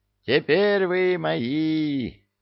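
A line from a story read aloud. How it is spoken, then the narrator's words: Triumphant howl. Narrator (Russian): взвыл некромант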